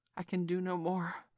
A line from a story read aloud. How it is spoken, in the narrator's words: Bagheera gasped